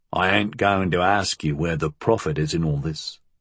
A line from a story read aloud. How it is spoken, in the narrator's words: he said in a low voice